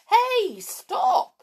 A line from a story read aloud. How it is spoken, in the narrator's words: shouted Mrs